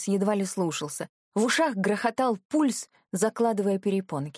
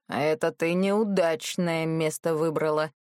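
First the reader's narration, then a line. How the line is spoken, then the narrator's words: Wry smirking grunt. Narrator (Russian): хмыкнул криво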